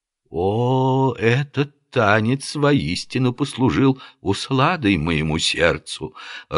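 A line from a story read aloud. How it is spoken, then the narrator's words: Timid, breathy. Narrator (Russian): робко выдохнул Селим ибн Гарун аль-Рашид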